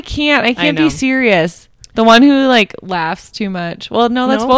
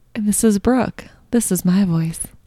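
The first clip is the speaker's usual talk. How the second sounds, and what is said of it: Put-on sultry sexy voice. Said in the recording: “No, that's not your normal voice. That's her sexy voice. That's her come hither voice.”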